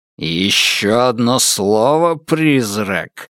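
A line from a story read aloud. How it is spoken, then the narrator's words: Growling. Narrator (Russian): зарычал Темса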